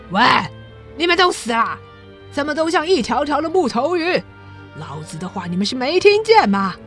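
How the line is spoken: Roaring. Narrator (Chinese): 他吼着

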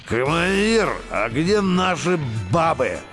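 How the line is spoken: Heavy leaden mumble in ear. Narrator (Russian): Начмет полка Карадзе тяжелым свинцовым голосом бубнил в ухо Гаевскому

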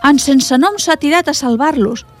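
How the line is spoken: Exclaimed. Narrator (Catalan): va exclamar la Sari

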